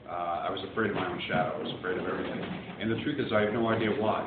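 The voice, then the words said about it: Boston accent. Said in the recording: “I'm from Boston. If you haven't picked up on the accent yet, you will.”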